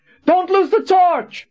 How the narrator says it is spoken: Colin screamed

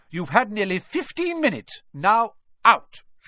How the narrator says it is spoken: she said firmly

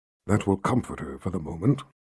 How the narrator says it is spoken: Nathan said in a confidential tone to Richard

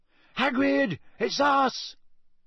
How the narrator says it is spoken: Harry shouted

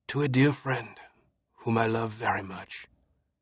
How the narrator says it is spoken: replied, his voice heavy with emotion

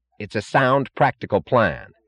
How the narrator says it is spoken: snapped James Taggart unexpectedly, with an angry edge of sudden animation in his voice

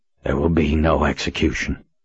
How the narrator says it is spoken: Richard said in a hoarse voice

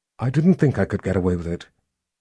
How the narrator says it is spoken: Kaelin said as calmly as she could manage

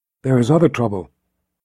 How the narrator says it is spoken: Kara said in a quiet, confidential voice

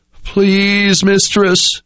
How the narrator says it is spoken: wailed

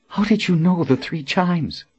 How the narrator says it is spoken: Colin whispered

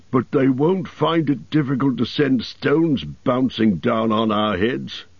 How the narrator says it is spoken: grumbled Bomber

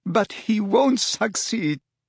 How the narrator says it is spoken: sobbed Narcissa

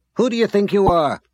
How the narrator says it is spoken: She snapped

